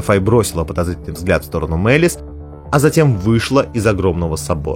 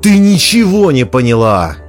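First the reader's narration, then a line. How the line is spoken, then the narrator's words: Sudden furious yell. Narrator (Russian): завопила мать Бэннер, внезапно разъярившись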